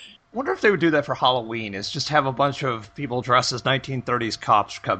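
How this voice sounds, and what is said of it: Usual voice. Nothing is said of it.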